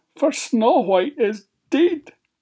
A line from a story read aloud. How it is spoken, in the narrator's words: sobbed Minger